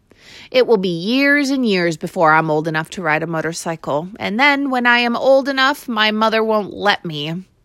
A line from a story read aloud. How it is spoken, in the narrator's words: said the boy gloomily